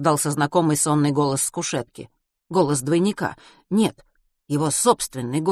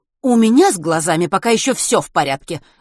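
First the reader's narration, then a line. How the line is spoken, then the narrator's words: Exclaimed. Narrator (Russian): воскликнула врач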